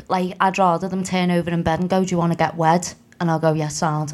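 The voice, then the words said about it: Regional accent. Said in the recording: “in your accent, that almost sounded like, do you want to get wet?”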